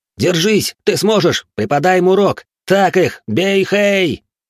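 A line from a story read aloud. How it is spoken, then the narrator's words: Students shouting together. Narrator (Russian): кричали ученики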